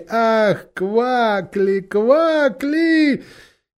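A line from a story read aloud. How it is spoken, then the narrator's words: Loud laughing chorus. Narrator (Russian): громко смеялись и говорили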